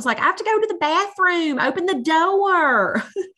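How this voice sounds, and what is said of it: Child-like Southern accent. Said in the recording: “talk about a Southern accent.”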